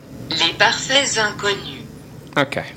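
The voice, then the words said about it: Put-on French accent. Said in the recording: “that was my best French accent.”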